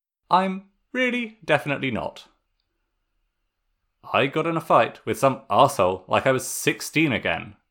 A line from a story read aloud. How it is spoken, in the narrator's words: Zuko exclaimed